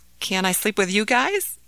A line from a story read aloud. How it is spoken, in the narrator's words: asked Ahmed timidly